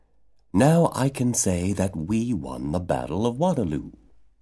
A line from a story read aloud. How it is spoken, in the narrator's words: said in a confidential tone